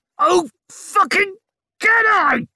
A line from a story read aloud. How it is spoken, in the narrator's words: she screamed